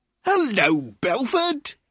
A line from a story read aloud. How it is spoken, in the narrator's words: he cried loudly